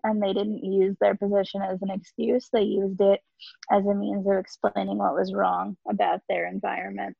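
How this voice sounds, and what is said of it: Voice strained, going hoarse. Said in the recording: “And now I'm losing my voice.”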